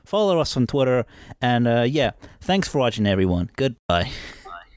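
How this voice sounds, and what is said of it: Badly done put-on accent. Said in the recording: “That sounds so horrible. horrible. ... That was terrible. ... That was an awful accent.”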